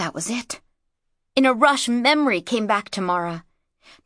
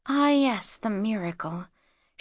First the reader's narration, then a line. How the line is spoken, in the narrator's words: she murmured now